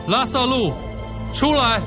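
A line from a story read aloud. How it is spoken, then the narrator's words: Loud shout. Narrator (Chinese): 大声呼叫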